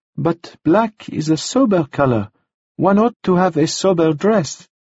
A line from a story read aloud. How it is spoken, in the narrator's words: said cheerfully